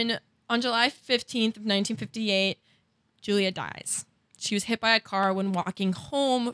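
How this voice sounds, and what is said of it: Usual voice. Nothing is said of it.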